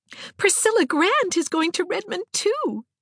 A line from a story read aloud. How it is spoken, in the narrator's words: she exclaimed